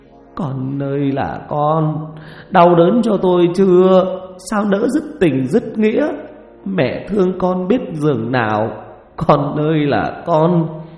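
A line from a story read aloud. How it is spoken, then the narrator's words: Weeping, moaning. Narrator (Vietnamese): Bà Chánh khóc than hai tiếng, rồi bà rên rỉ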